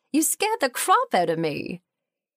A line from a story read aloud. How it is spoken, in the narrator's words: giggled